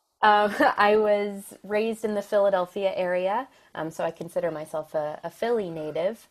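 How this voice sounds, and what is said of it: American accent. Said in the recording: “I am American, as you can probably tell by my accent.”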